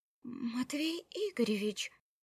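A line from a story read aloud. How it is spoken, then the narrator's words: Flustered babbling. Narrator (Russian): Растерянно залепетала Марианна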